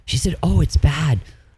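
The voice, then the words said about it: Imitates another person's voice. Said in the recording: “you do a very good impression of your mother”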